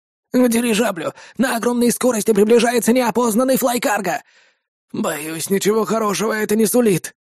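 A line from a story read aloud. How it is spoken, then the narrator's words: Sad sigh. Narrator (Russian): с грустью выдохнул он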